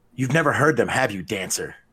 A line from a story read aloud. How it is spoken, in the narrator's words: he asked Drizzt